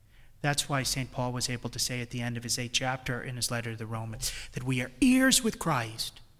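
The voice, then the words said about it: New England accent. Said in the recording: “with my New England accent, you probably didn't understand what I was saying”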